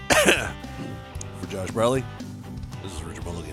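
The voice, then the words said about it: Put-on deep voice. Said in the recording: “putting on his deep voice ... Because that's the only voice he can do”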